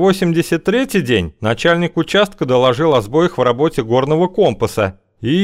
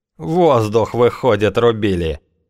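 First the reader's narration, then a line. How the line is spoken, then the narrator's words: Grumbling father. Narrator (Russian): буркнул папа Клин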